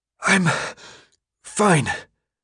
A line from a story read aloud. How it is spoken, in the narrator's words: he said between breaths